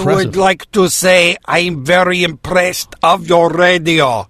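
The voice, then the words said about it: Put-on Bulgarian/Russian-sounding accent. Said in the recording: “what does the Bulgarian accent sound like ... He sounds more sober in a Russian accent than he does.”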